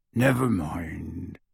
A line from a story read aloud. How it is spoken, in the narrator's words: said gruffly